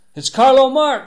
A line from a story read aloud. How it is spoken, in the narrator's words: screamed Dean above the fury